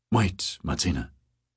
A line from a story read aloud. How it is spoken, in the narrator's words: Harry whispered